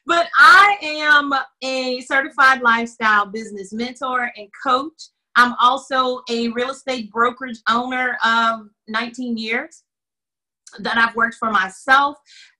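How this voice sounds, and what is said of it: Southern Louisiana twang. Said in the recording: “in the South, we pronounce everything just a little different ... You've got to put your Opelousas twang on it”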